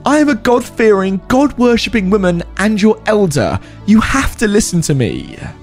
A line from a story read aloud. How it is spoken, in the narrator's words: The mother screeched